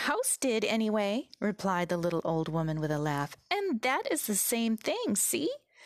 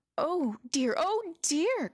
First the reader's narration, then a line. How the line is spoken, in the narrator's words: cried Dorothy, in dismay